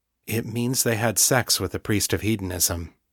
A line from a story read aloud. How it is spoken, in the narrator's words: John said gently